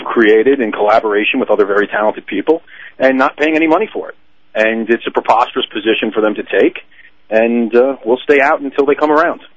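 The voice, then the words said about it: New York accent. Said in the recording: “I just kind of guessed that you came from New York ... You can't tell from the accent? ... it was all New York”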